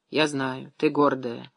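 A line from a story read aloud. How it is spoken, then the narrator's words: Sighing. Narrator (Russian): вздохнула Ефимия Андреевна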